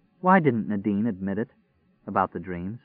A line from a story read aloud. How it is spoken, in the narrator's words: said softly